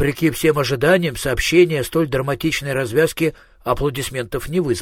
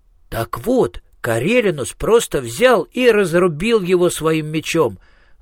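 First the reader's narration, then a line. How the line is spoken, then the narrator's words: Exclaimed. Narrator (Russian): воскликнул Министрель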